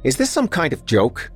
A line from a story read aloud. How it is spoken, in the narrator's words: Chadwick asked angrily